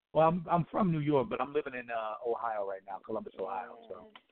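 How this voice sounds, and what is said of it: New York accent. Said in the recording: “I heard the accent in the New York”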